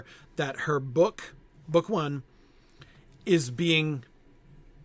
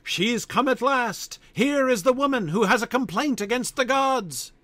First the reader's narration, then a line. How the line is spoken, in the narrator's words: 100 echoes roared from the face of the mountains